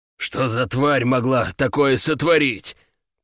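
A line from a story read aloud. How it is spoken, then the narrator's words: Hoarse, to himself. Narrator (Russian): прохрипел он, обращаясь скорее к себе, чем к Анисимову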